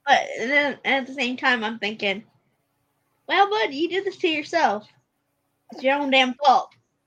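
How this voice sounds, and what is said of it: Regional accent slips out. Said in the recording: “my accent did come out there”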